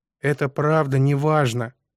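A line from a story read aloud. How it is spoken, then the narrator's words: Tired repetition. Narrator (Russian): повторил я устало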